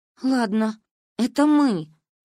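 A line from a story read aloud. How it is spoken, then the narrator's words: Sigh. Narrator (Russian): вздохнула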